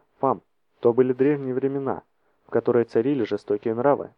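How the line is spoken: Soft, gentle. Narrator (Russian): мягко сказал Арториус

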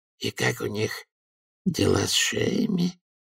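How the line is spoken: Mumbling. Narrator (Russian): промямлил Ячеистый

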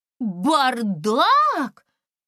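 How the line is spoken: Exclaiming. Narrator (Russian): воскликнула Искра

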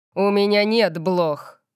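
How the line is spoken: Growled. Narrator (Russian): прорычал он

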